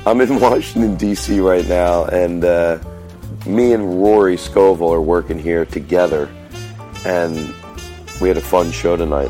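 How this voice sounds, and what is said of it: Slightly congested voice from cold. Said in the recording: “I have a little bit of a cold, if you hear it in my voice.”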